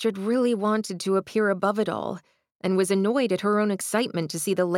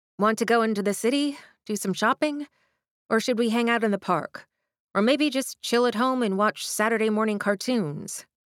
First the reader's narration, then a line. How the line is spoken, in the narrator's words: Astrid asked